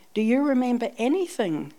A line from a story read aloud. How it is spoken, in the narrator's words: we asked